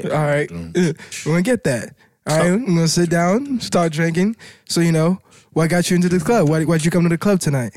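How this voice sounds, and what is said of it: Haitian accent. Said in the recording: “Your accent fucked me up ... I'm from Haiti. That's why I have an accent.”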